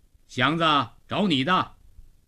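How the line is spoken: Calling out. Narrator (Chinese): 老程在门洞里叫了声

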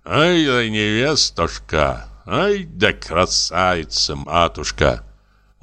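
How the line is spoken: Old man's tender muttering. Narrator (Russian): старик только умилялся и бормотал

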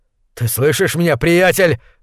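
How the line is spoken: Growled. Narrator (Russian): зарычал он

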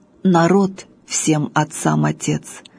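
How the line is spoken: Plain, commander. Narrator (Russian): сказал так полководец

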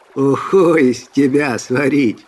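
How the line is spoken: Laughing loudly, bearded man. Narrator (Russian): захохотал длиннобородый

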